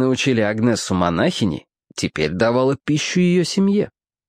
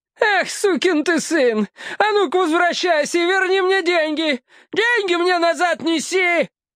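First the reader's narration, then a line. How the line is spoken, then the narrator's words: Furious woman yelling. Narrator (Russian): вопила разъяренная женщина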